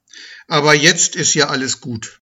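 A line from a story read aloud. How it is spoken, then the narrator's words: Plain. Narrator (German): sagte Luisa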